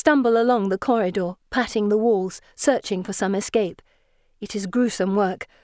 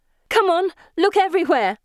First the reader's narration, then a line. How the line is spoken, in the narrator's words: I shout